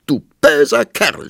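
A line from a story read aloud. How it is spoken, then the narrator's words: Shouting. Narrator (German): schrie sie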